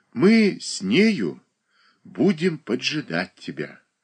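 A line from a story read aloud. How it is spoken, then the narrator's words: Affectionate. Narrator (Russian): ласково промолвил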